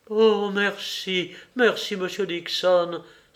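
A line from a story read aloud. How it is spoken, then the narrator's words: Cried out. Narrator (French): s'écria madame Stone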